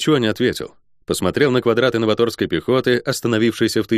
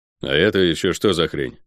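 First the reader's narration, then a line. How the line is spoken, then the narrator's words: Gloomy question. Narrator (Russian): мрачно спросил я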